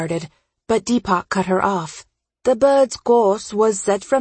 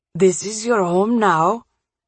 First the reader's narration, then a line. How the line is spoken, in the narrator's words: Deepak answered, his voice tense